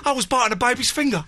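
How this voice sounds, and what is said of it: Put-on accent. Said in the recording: “I don't know why I did that accent.”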